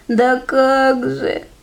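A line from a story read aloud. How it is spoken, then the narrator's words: Sobbing. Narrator (Russian): всхлипывает Мишка-топтышка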